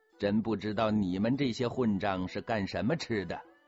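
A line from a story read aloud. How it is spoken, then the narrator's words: Laughing. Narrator (Chinese): 福康安笑着说了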